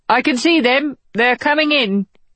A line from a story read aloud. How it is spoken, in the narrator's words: the Coast Guard called out